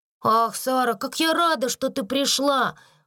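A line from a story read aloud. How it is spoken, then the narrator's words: Exclamation. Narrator (Russian): воскликнула она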